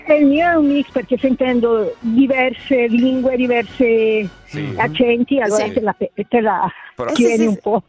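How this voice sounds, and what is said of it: South American Spanish accent in Italian. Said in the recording (Italian): “tu hai un accento spagnolo ... Si sentiva ... un mix, no? Tra il Sud America e il bergamasco”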